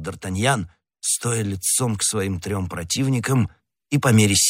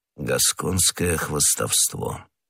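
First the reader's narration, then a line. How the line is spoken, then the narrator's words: Stranger muttering. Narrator (Russian): пробормотал незнакомец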